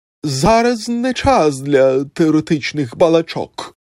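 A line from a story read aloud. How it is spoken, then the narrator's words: Exclaimed. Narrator (Ukrainian): вигукнув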